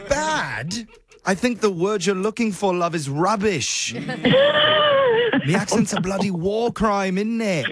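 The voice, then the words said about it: Bad put-on British accent. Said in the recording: “my absolute worst British accent ... It was bad”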